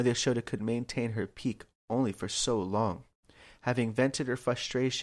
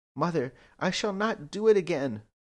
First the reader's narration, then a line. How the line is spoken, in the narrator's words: Krishna pleaded